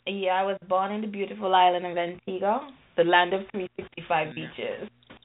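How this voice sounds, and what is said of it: Caribbean island accent. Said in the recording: “you sound like you're a little island. Like what Caribbean island are you from? I hear the accent.”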